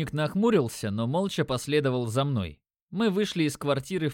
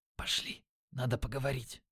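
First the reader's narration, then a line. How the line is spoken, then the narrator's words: Whisper. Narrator (Russian): шепнув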